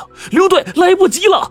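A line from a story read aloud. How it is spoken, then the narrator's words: Shouting. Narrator (Chinese): 喊声中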